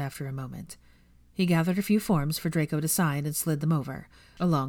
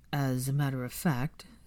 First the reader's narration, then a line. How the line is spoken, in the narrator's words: said slowly